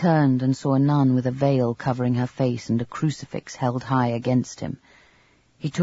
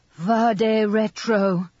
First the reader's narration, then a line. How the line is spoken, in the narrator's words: she shouted